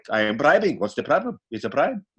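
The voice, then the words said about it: Put-on unidentifiable foreign accent. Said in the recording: “I don't know what accent that is”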